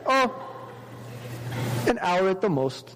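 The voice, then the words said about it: Put-on Indian accent. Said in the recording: “I'm trying to do an Indian accent.”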